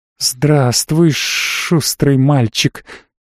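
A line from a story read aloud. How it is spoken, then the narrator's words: Creature's hiss. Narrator (Russian): прошипела тварь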